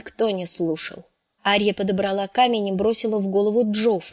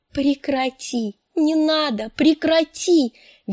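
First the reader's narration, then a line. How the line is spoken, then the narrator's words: Shrieking. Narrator (Russian): визжала Санса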